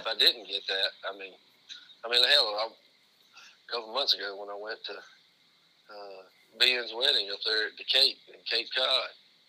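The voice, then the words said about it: Southern US accent. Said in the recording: “people might make fun of your accent a little bit and might rib you for being from the South”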